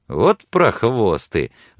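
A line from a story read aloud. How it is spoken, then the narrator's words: Laughing. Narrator (Russian): засмеялся Билли, обращаясь к Сексон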